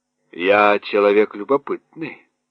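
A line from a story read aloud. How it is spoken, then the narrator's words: Grumbling. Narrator (Russian): пробурчал Кеттерле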